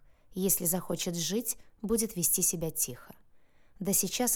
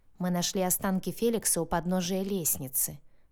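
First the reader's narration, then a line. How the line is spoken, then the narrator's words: Muffled hollow voice. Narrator (Russian): глухим голосом рассказывал Ива, правая рука Яноша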